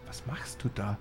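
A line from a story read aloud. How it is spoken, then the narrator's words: Whispering. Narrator (German): flüsterte ich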